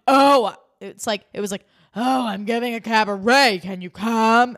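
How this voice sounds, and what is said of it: Imitates another person's voice. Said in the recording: “Her impression of Luann was like ... It like, didn't even sound like Luann. I can't even do a Luann impression bad enough to sound like Ramona doing a Luann impression.”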